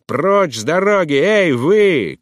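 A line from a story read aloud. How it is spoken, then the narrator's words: Coachman shouting. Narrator (Russian): кричал какой-то кучер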